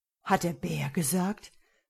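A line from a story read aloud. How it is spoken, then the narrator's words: Anxious question. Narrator (German): fragte der Herzog ängstlich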